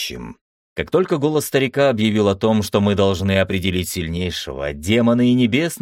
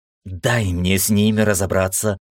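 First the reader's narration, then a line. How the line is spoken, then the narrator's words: Hissing. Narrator (Russian): зашипела Ира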